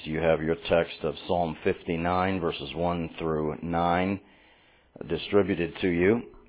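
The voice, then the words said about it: Unusually low, deep voice. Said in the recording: “Seems like my voice is getting lower these days. This is like, sound like I'm talking to you from the basement of something.”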